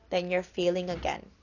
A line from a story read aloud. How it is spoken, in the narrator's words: father said quietly